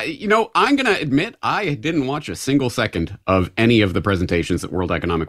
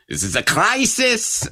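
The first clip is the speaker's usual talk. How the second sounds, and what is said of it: Imitates another person's voice. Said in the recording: “I can do the Klaus Schwab.”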